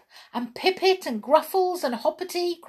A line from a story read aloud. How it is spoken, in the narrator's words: cried Jump